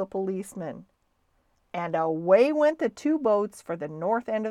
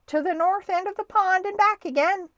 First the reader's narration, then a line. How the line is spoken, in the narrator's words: shouted the referee